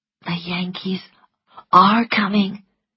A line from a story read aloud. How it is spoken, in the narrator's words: whispered Melanie